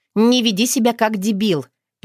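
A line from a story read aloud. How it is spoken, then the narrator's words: Sharp scolding shout. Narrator (Russian): прикрикнула Ника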